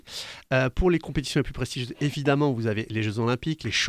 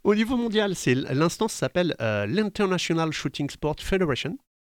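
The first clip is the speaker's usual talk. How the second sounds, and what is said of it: Nice English accent on English words. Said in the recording (French): “Très bel accent.”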